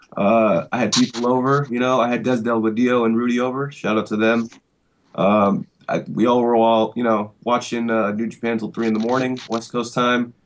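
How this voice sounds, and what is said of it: Very hoarse voice. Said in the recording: “my voice is very, very hoarse just from screaming so much last night”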